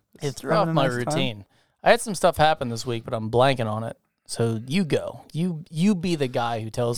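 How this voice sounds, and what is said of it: Slightly raspy voice. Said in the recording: “No, you are a little raspy. ... Probably from shouting that whole time.”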